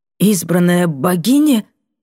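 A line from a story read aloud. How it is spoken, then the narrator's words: Hoarse croak. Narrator (Russian): каркнул он хрипло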